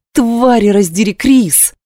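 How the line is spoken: Growled. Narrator (Russian): зарычала Кира

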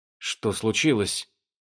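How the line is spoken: Muttering. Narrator (Russian): пробормотал сундук

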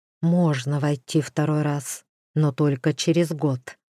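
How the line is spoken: Quiet reply. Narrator (Russian): также тихо ответил Дроу

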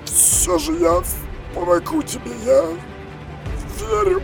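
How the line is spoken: Hoarse rasp. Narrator (Russian): прохрипел он

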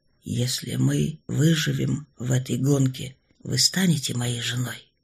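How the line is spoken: Hoarse question. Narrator (Russian): хрипло спросил Штерн

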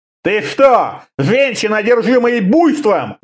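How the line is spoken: Shouting. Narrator (Russian): заорал

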